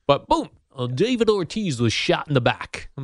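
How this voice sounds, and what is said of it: Generic sports announcer voice. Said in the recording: “That was an impression of an announcer... Just random announcer... generic... Generic announcer guy.”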